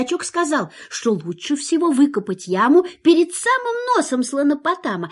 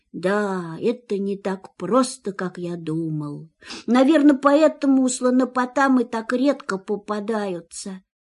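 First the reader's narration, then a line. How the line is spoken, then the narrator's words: Sad. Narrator (Russian): грустно добавил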